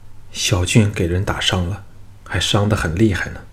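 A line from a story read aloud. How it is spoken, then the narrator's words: Trembling voice. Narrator (Chinese): 吴廷芳颤声说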